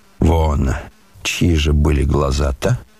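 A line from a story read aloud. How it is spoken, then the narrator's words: Suspicious mutter. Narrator (Russian): подозрительно пробормотал Рогожин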